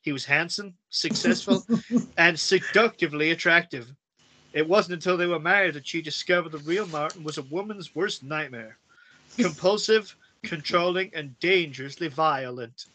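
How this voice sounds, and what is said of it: Poor put-on American accent. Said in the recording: “I want to do this in American... Sorry for the accent... that's an awful accent”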